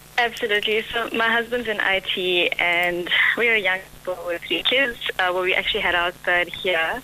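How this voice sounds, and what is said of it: South African accent. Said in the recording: “I love your South African accent”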